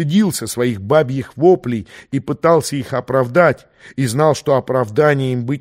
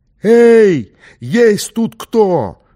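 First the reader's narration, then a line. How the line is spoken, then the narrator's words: Yelled at full strength. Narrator (Russian): что было сил, заорал Ахмед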